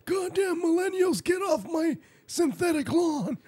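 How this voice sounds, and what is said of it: Old man character voice. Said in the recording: “I was gonna do an old man”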